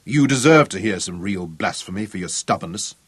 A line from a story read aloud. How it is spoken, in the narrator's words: Zuger told her curtly